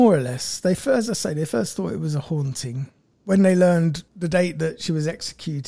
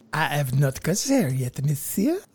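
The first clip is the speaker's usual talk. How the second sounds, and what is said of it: French lady accent. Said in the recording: “French lady accent ... That's pretty good.”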